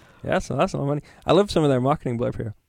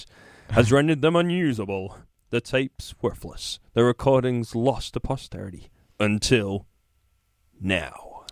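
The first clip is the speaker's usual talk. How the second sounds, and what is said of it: Dramatic deep-voiced announcer reading. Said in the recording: “deep voice”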